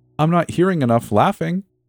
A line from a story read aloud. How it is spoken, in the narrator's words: he would shout